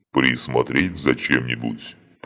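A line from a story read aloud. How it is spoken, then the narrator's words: Loud growl over music. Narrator (Russian): прорычал один из кроганов достаточно громко, чтобы его было слышно за грохотом музыки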